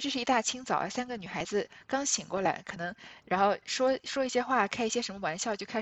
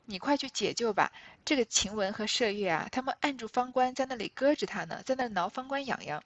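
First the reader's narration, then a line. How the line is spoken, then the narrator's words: Laughing. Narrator (Chinese): 袭人就过来笑着跟他说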